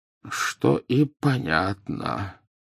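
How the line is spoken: Muttering. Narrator (Russian): пробормотал Дамблдор

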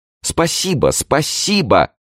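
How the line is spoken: Princess exclaiming. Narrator (Russian): воскликнула принцесса

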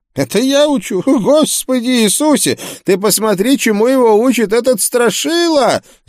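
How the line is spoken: Furious yell. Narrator (Russian): завопил проповедник

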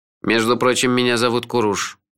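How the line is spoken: Grumbling bird. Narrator (Russian): проворчала наша мудрая птица

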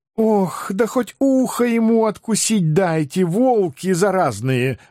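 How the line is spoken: Desperate moaning. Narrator (Russian): Отчаянно застонав, красавица

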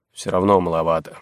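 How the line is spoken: Grumbling. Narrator (Russian): проворчал Крашунович

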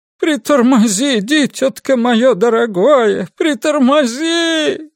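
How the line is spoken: Moaning plea. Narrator (Russian): стонала тетка, пока взволнованная Кёрк искала нужную комбинацию

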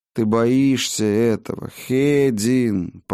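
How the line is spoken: Drawn-out, dawning realization. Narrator (Russian): протянула она, словно придя, наконец, к долгожданной догадке

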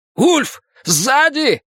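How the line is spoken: Shout. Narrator (Russian): крикнул кто-то

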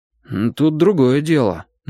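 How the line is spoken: Uncertain, defensive. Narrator (Russian): неуверенно защищался Платон

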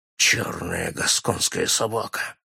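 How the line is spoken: Whisper. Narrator (Russian): прошептал он

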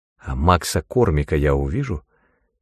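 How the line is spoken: Quiet question. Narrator (Russian): тихо спросила Синтия

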